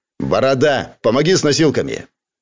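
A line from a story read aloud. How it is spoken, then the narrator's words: Angry snap. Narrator (Russian): Коротышка зло бросил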